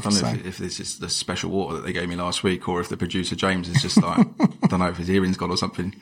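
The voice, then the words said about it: Luton accent. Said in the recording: “It's that Luton accent, mate. People can't understand it.”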